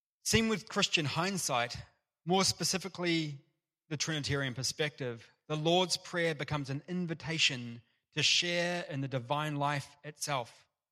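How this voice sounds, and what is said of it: British accent. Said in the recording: “Beautiful British accent.”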